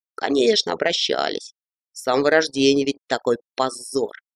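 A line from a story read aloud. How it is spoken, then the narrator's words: Resigned sigh. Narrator (Russian): Он обреченно вздохнул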